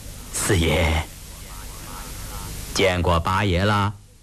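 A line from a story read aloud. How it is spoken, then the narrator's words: Sheepish. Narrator (Chinese): 年羹尧讪讪地说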